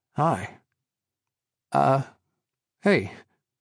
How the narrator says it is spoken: he smiled nervously

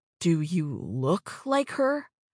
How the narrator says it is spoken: Nathan asked, his voice stunned

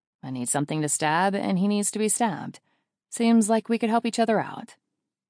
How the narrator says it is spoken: I tell him dryly

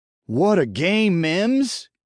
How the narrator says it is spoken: shouted

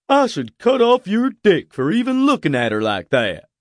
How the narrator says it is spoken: he said with a chuckle

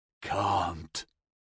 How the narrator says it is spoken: he mumbled

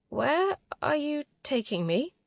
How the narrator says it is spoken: croaked, mouth dry

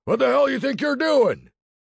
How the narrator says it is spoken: bellowed a voice

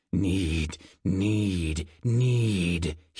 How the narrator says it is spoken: grunted

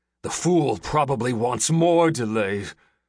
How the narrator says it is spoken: growled

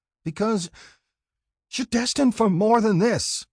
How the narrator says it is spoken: Molly yells

